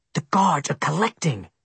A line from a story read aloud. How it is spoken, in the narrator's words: he whispered